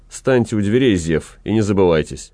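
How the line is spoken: Stern. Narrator (Russian): господин ротмистр строго сказал

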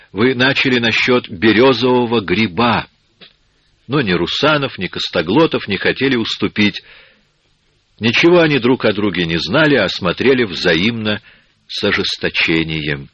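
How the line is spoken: Voiceless whisper. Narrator (Russian): шептал безголосый с Демкиной кровать

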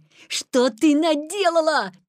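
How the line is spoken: Shout. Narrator (Russian): крикнул Петя

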